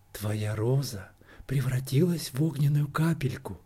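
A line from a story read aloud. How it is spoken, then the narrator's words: Whispered. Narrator (Russian): прошептал лучик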